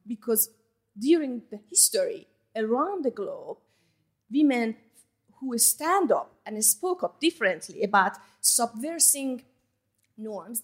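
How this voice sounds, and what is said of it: Thick non-native accent. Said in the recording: “I still have thick accent, I know. It's beautiful.”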